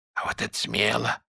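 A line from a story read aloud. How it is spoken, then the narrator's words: Excited whisper. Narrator (Russian): возбужденно шепнул Бах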